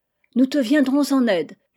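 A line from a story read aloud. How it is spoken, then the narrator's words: Shouting. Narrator (French): lui cria la carpe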